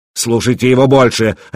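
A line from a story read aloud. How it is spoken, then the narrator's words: Barking. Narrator (Russian): рявкнул он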